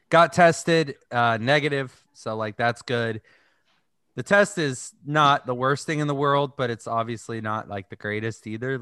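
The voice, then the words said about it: Groggy voice from a cold. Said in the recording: “I sound a little groggy ... Really, really bad cold ... sore throat.”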